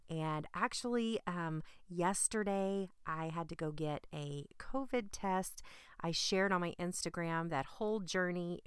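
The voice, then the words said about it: Slightly sick, under-the-weather voice. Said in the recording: “You may hear it in my voice a little bit. I've been very under the weather.”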